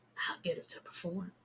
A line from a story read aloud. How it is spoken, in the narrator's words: Shaquem whispers to him